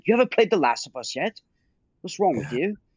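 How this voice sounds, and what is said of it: Weak put-on British accent. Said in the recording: “She has a British accent. That's why I did that weird accent. ... I'm just not good at it.”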